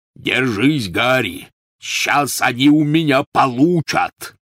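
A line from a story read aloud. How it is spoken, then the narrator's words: Growling. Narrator (Russian): рычал Хагрид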